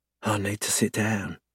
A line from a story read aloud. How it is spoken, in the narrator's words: she murmurs, panting